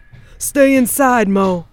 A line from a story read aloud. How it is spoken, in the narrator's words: he shouted towards his daughter's room